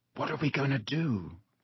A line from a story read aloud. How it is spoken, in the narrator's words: said Ron quietly in Harry's ear